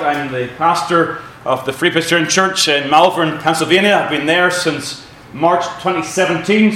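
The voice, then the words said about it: Non-local accent. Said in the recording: “I still can't shake off the accent, though ... I can't sound and talk the way you folks do”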